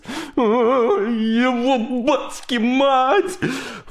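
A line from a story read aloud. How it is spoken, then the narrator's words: Howling. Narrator (Russian): Взвыл грохотало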